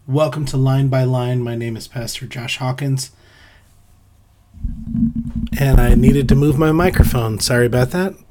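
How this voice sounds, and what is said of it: Ragged, sick-sounding voice. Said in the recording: “forgive me if my voice is a little ragged. I've been sick for a few days”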